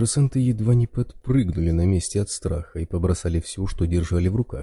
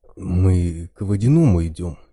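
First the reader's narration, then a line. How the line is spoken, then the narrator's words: Uncertain. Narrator (Russian): неуверенно произнес один из них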